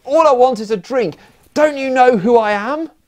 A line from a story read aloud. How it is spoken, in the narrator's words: after drinking all day ... yelled